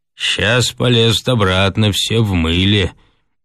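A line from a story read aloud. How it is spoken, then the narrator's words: Gloomy remark. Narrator (Russian): отметил мрачно Хрунич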